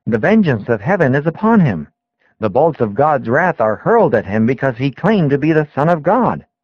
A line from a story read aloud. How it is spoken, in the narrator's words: many voices exclaimed